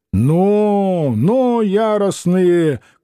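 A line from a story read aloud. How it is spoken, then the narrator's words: Shout. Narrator (Russian): крикнул он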